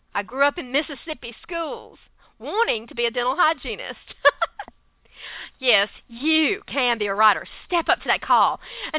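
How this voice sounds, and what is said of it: Southern American accent. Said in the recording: “I have that southern accent.”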